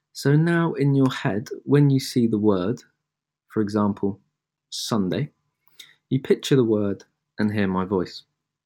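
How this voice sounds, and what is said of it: Native British English accent. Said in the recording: “a native English person with a British accent.”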